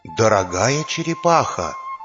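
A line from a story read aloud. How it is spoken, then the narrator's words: Quiet but audible to all. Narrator (Russian): сказал он тихо, но так, чтобы слышали все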